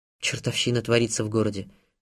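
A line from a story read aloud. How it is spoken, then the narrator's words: Conciliatory grumble. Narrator (Russian): примиряюще буркнул он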